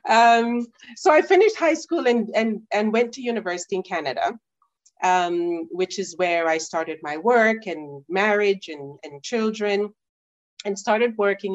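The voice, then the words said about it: Jamaican accent. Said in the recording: “you maintained your accent. And I just love hearing it.”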